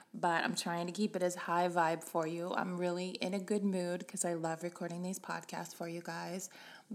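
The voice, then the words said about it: Sick, under-the-weather voice. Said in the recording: “I am a little under the weather. I'm hoping you can't tell by my voice”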